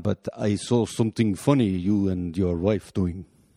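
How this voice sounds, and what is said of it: Poor Russian accent impression. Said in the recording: “I'm doing a poor accent. He's Russian.”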